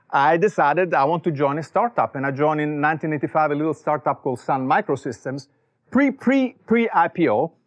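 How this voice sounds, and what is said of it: Italian accent. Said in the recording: “as you can tell from my accent, I was not born here. I was born in Italy.”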